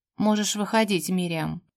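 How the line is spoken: Quiet. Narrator (Russian): проговорил Амин негромко

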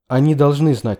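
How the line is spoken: Plain. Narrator (Russian): сказал Марк

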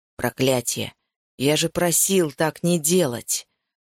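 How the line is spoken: Grumbling. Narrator (Russian): проворчал Максантариус

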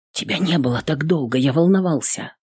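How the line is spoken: Whispering man. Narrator (Russian): зашептал он

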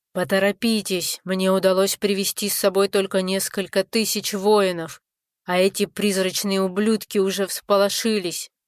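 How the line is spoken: Growled. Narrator (Russian): прорычал Рамбалак

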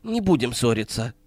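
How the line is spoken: Trembling voice. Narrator (Russian): добавил он дрожащим голосом

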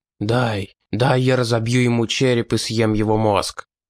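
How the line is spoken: Hissing warrior. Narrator (Russian): прошипел воин

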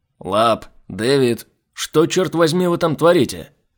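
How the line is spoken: Yelling angrily. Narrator (Russian): орал он

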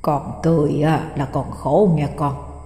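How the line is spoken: Old, hoarse voice. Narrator (Vietnamese): giọng già nua khàn đục

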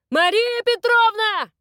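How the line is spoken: Roaring. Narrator (Russian): взревел Возгонцев

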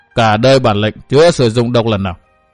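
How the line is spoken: Cold. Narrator (Vietnamese): Văn Thiên Hạo lạnh lùng nói

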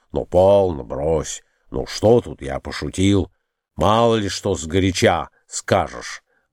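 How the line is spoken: Muttering. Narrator (Russian): бормотал

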